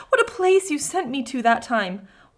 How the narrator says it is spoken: cried

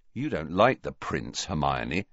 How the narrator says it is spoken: he added sternly

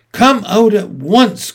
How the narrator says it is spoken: cried Mrs

